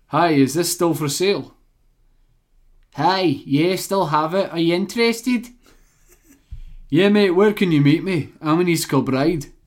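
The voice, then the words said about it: Put-on Scottish accent. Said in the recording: “they're Scottish, so I'm going to do a Scottish accent ... The Glaswegian”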